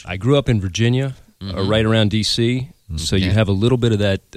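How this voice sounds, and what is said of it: Slight Southern, D.C.-area accent. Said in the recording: “You have a slight accent ... It's a little southern ... A hint of D.C.”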